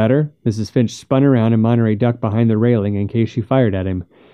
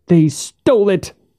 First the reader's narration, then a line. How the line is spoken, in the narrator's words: cried